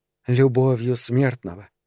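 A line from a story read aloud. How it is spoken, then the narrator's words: Almost calm voice. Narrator (Russian): сказала почти совершенно спокойным голосом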